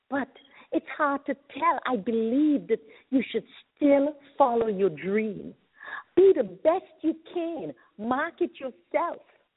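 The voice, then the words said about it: Speaker's own noticeable accent. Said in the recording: “forgive my accent”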